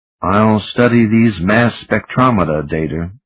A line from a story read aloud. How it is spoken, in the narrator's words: he answered evenly